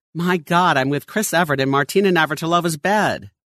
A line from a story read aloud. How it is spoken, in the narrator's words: the gentleman to exclaim